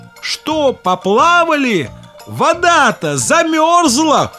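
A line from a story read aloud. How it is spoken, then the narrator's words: Jackdaw crying out. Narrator (Russian): лохматая галка крикнула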